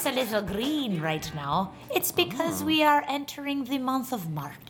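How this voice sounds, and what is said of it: Put-on Irish accent. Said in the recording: “She's bringing home the Irish accent.”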